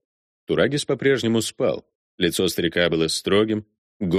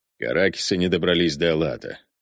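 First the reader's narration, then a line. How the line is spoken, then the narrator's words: Gruff mutter. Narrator (Russian): буркнул, понимая, что хочет напиться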